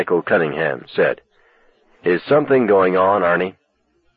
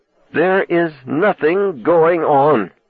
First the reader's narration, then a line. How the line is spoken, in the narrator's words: he said through clenched teeth